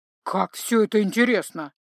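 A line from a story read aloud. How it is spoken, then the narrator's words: Grumbling. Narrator (Russian): проворчал Грым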